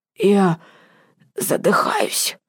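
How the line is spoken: Hoarse, weak voice. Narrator (Russian): раздался хриплый, слабый голос

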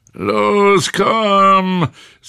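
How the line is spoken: Old man, loud. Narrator (German): sagte der alte Mann laut

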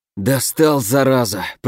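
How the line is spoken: Groan. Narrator (Russian): простонал Фурсов

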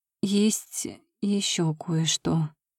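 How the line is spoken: Hesitant start. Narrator (Russian): неуверенно начала

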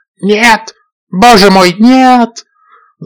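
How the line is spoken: Pig screaming. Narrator (Russian): закричала свинья

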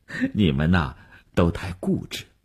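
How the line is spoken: Smiling. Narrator (Chinese): 吴晓笑了笑说

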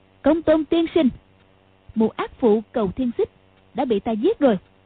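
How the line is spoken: Raised voice. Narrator (Vietnamese): cao giọng nói

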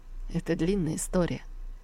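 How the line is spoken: Sad smiling tone. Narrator (Russian): грустно улыбнулся Ечуфен

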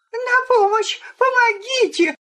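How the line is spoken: Scream of feigned terror. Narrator (Russian): сделанным ужасом закричала Джульетта

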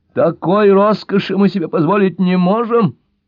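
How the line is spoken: Shriek. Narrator (Russian): взвизгнула Анжелика

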